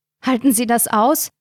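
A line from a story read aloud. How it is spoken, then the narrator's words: Panting. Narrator (German): keuchte Carina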